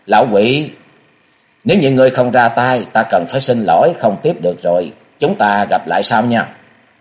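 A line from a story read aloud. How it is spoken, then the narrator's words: Cold laughing. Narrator (Vietnamese): lạnh lùng cười nói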